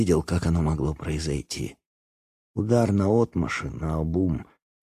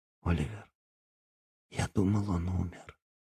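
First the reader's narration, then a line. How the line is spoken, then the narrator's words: Barely audible, very quiet. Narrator (Russian): сказал он так тихо, что я едва его расслышал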